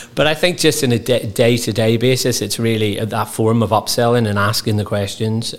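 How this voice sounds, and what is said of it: Strong accent, hard to understand. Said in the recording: “With my accent, most time people don't understand me”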